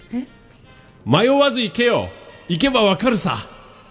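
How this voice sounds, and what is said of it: Imitates another person's voice. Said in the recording (Japanese): “猪木のモノマネで ... いや全然似てないし”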